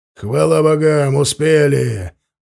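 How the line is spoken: Relieved exclamation. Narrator (Russian): воскликнул Варлыга, увидев наков с клинками наголо

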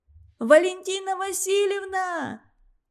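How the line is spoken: Shout. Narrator (Russian): крикнула Зорька

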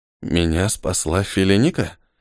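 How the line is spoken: Muttered. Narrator (Russian): пробормотал он

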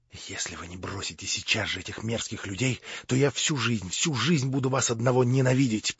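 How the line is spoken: Whisper. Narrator (Russian): прошептала Аглая

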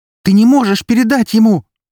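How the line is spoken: Shouting. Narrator (Russian): закричала Эри

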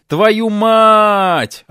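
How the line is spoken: Yelling. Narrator (Russian): орал лысый кит

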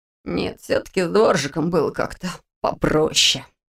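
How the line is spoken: Muttering. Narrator (Russian): пробормотал он

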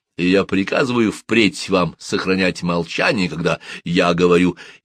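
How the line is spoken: Laughing. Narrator (Russian): засмеявшись, добавил

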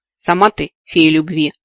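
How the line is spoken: Offended muttering. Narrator (Russian): обиженно пробурчала

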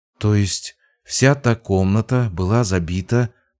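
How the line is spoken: Muttered. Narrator (Russian): пробормотала Лина

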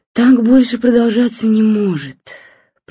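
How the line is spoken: After deep sigh. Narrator (Russian): профессионально глубоко вздохнув, произнесла жена

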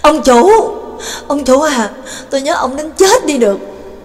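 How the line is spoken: Sobbing, bellowing loudly. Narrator (Vietnamese): hắn mới khóc lóc ròng ròng chạy ra, đồng thời lớn tiếng rống lên

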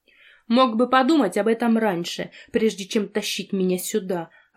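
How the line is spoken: Snapping woman. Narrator (Russian): огрызнула женщина

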